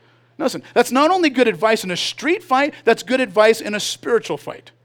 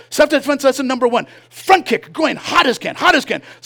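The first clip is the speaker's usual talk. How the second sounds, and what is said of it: Impression of a taekwondo instructor. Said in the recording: “impersonation ... Yun Sung Kim”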